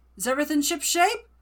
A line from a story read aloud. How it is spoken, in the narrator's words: Finbar calling anxiously